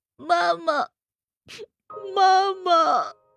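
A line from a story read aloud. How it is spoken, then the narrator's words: Aggrieved crying. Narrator (Chinese): 委屈的哭了起来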